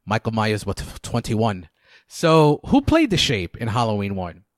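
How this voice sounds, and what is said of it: Put-on British accent. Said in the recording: “I can do the voice. This is my best British accent.”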